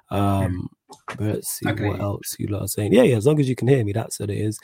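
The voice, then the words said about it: Speaking quietly, low volume. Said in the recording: “I'm not losing my voice ... So I'm trying to not be too loud”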